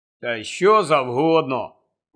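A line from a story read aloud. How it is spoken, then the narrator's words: Gloomy grumble. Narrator (Ukrainian): похмуро буркнув Рон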